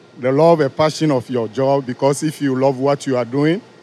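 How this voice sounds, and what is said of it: West African French-influenced English accent. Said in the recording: “your accent, because I love that ... My accent is from West Africa, especially Togo ... colonized by the French ... So we speak French”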